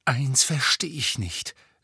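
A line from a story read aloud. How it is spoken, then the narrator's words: Trembling voice. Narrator (German): sagte Harry mit bebender Stimme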